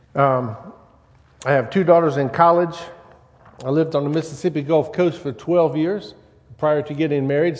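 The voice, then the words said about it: Louisiana Southern accent. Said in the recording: “if you detect any accent in my voice, that is why. It's actually a Louisiana accent”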